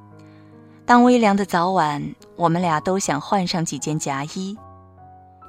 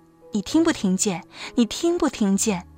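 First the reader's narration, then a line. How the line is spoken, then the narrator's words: Half-asleep, after crying. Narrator (Chinese): 哭完之后，他才告诉我说，在半醒半睡的中间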